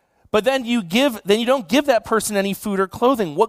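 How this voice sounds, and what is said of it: Usual voice. Nothing is said of it.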